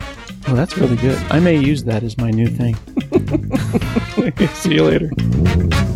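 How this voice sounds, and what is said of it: Usual voice. Nothing is said of it.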